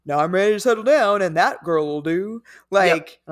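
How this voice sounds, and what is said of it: Cartoonish Fred Flintstone-like voice. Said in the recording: “I just started talking like Fred Flintstone ... the Georgia accent ... my accent was much closer to Yogi Bear than ... Fred Flintstone”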